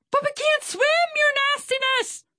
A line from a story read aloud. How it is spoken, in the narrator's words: Swordfish screeched with fear